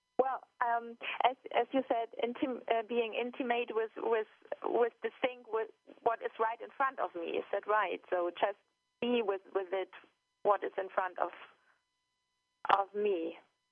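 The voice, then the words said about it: German accent. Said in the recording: “our listeners hear your accent ... I'm calling in from Hamburg in Germany”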